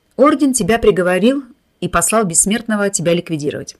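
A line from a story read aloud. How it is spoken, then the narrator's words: Calm explanation. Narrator (Russian): спокойно пояснил Рис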